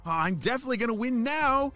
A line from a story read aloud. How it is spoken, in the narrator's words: shouted Jaden